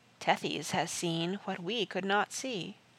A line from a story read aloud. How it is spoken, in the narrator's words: Softly, Captain Tom said